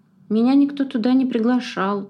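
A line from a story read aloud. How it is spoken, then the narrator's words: Glum reply. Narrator (Russian): уныло ответила Миса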